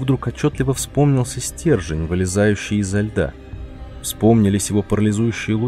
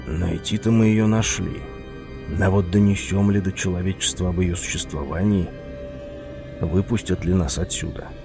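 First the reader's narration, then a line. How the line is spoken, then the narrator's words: Whisper to oneself. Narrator (Russian): прошептал себе под нос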